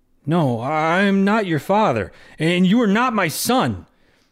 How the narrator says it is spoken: Guam growled

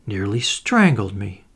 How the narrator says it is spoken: she murmured painfully

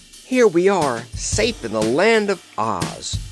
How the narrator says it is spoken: cried the Scarecrow joyfully

